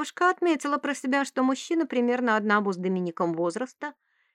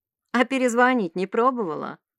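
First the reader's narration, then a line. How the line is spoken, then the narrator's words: Mocking question. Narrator (Russian): спросил он насмешливо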